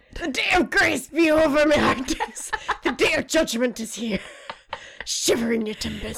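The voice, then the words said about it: Put-on pirate accent. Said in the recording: “In a pirate accent.”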